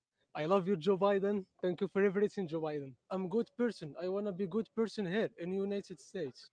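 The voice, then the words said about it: Middle Eastern accent. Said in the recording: “That's a Middle Eastern accent.”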